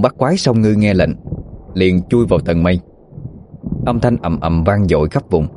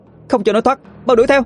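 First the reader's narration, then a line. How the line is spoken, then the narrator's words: Shout. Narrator (Vietnamese): hét lên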